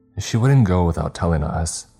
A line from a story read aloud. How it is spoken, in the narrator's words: Johnny replied, his voice wrought with concern